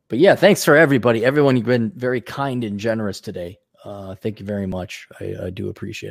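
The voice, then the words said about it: Tired, strained voice starting to go. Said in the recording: “I'm also tired. That's why I'm starting to lose my voice”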